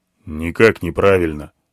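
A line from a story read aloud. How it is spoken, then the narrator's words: Grumbling elephant. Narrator (Russian): буркнул слон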